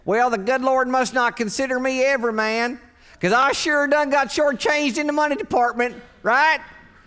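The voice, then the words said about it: Mock hillbilly accent. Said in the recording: “In that hillbilly accent that you employ in the privacy of your own mind”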